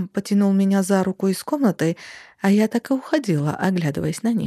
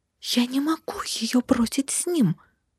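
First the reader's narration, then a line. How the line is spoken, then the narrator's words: Hissing. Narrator (Russian): зашипела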